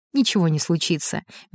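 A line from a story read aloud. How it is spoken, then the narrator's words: Soft smiling tone. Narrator (Russian): мягко улыбнулся Громов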